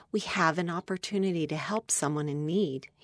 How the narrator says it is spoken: said in a quiet voice

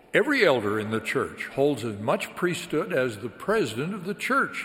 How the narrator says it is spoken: he said

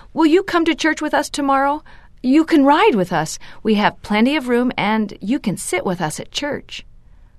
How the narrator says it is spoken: He took a deep breath and blurted out

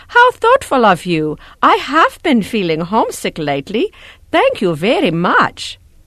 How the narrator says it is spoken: Elder Junker exclaimed

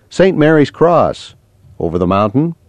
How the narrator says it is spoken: chuckled

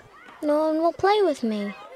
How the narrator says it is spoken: Anna said, looking up sadly

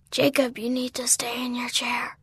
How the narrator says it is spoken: Ryder whispered

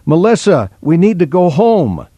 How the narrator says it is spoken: She shouted across the street

